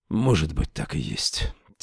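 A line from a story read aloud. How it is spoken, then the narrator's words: Quiet. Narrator (Russian): тихо сказал он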